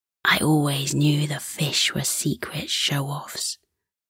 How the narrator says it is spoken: Bobby whispered to Bertie, and they laughed fondly

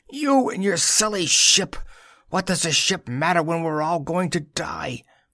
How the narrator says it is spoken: the girl Sada screaming

